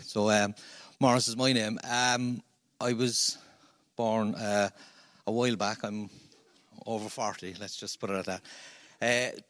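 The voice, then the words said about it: Irish Cork accent. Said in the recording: “You may guess from my accent, I'm a Cork man.”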